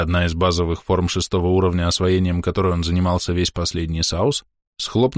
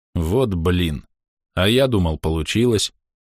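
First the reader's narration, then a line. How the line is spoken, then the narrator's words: Dejected mutter. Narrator (Russian): уныло буркнул Андрей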